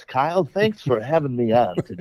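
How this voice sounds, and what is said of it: Put-on fake radio announcer voice. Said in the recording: “do you have your radio voice on ... My radio voice is in full force ... There's something really awful about when ... puts on a fake voice. It sounds disingenuous”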